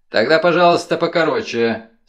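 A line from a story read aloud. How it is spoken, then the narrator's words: Dry reply. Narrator (Russian): сухо ответил судья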